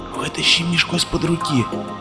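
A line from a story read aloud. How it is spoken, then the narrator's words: Whisper, bearded man. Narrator (Russian): прошептал бородач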